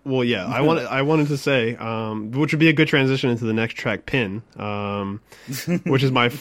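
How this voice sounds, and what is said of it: Usual voice. Nothing is said of it.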